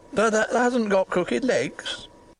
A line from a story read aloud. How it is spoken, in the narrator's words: quavered Ben, more hoarsely yet